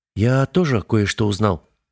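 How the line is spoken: Grumbling mutter. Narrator (Russian): буркнул Олег

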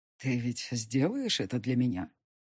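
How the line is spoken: Hoarse whisper. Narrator (Russian): Хрипло прошептал мужчина

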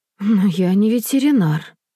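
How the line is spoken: Tired mother. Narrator (Russian): устало говорит мама

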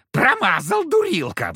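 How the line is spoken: Devil's shriek. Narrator (Russian): взвизгнул черт

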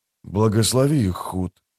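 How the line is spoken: Whispering. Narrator (Russian): прошептал Дукер

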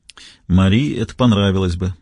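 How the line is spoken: Sighing. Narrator (Russian): вздохнул Костельно

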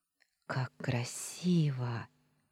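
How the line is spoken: Awed hushed whisper. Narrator (Russian): Прошептала, будто боясь запугать это чудо своим голосом

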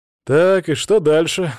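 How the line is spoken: Sigh. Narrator (Russian): вздохнул я

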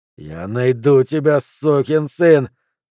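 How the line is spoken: Hissed through teeth. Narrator (Russian): сквозь зубы прошипел Флинт

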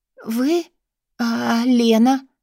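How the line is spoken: Hoarse. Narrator (Russian): сиплю

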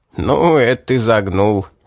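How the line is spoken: Laughing. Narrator (Russian): рассмеялся мастер

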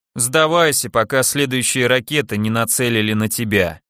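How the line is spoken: Lazy, chewing while speaking. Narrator (Russian): лениво произнес он, что-то при этом пережевывая

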